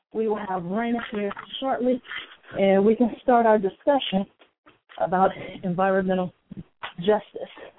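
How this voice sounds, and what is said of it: Out of breath speaking. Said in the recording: “I'm a little out of breath.”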